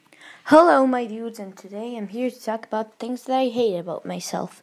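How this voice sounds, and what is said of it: American accent. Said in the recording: “my American accent, or American in caps ... my accent is really stupid”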